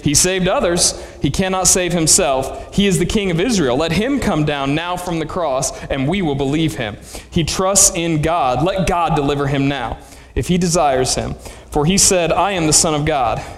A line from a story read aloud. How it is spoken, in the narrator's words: mocked him, saying